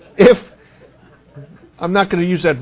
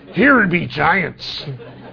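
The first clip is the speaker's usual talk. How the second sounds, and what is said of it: Put-on pirate accent. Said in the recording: “all that sounds better when you speak in a pirate's accent ... that voice”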